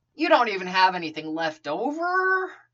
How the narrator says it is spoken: Tony whined

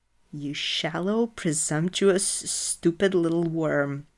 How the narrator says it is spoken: Loki hisses

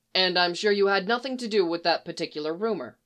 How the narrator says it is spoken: Phil said dryly

